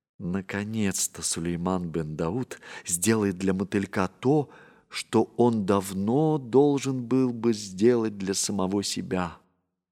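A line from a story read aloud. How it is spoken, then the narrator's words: Whisper. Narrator (Russian): Балкис прошептала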